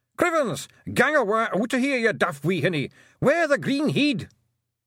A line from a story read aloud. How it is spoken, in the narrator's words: shouting